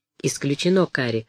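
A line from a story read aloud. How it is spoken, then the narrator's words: Calm reply. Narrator (Russian): спокойно ответил Мут-Анг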